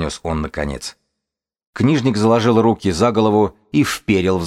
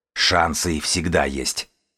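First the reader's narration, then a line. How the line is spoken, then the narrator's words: Growl. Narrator (Russian): прорычал бегун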